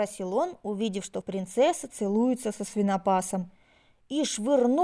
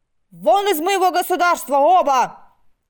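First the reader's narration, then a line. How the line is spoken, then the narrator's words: Angry emperor shouting. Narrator (Russian): крикнул рассерженный император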